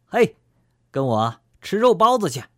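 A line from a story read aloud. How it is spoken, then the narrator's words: Loud shout. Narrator (Chinese): 就会高喊一声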